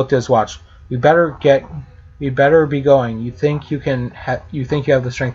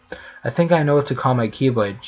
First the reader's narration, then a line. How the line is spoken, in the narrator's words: she said quietly to Sora